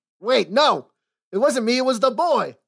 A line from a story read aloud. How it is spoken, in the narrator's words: yelled Parlo